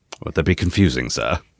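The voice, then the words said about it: Put-on British accent. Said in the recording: “There's that British accent.”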